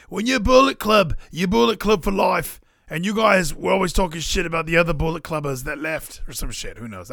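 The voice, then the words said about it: Jay White impression. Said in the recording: “my Jay White impression”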